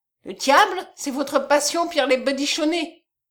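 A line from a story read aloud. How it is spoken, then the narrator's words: Exclaiming. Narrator (French): s'écria Kolb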